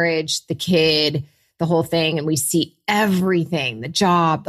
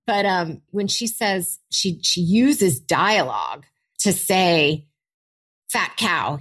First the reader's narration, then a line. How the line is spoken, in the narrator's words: he snarled